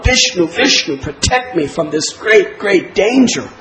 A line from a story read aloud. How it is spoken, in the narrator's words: he would scream out